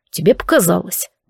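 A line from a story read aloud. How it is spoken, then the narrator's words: Grumble. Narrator (Russian): буркнул Дарк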